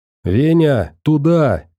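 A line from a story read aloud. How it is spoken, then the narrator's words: Old man shouting. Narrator (Russian): крикнул старик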